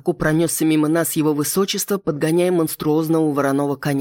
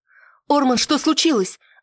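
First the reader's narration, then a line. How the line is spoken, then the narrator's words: Worried exclamation. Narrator (Russian): Обеспокоенно воскликнула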